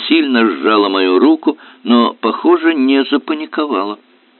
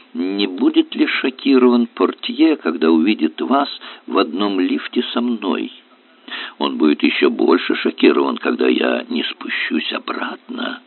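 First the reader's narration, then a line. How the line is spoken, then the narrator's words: Whisper. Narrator (Russian): прошептала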